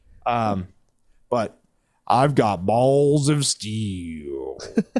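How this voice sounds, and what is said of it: Duke Nukem impression. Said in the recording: “my best Duke impression ... none of them are good”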